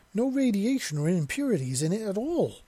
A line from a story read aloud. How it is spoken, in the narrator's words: Ven exclaimed